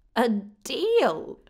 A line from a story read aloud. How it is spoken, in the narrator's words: Tave half laughed, almost a cackle